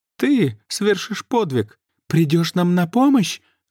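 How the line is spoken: Angry exclamation. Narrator (Russian): гневно воскликнула она

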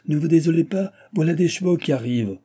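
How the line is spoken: Shouted. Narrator (French): cria le maître de poste

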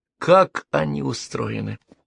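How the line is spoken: Chuckling. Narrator (Russian): хохотнул Витя

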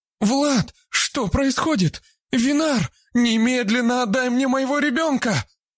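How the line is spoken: Shouting. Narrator (Russian): закричала Вера

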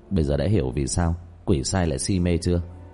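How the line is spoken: Cold. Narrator (Vietnamese): Diệp Thiếu Dương lạnh lùng

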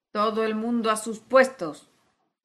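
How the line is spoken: Queen roaring, thunderous. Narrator (Spanish): rugió la reina con voz de trueno

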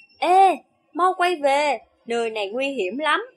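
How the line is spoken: Loud annoyed shout. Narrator (Vietnamese): Uy Thất Thất bực tức lớn tiếng hô

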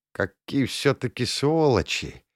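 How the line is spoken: Quavering rattling voice. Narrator (Russian): дребезжащим голосом выговорил Тахир Мурадович

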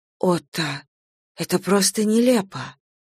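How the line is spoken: Breathless exhale. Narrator (Russian): выдохнула я

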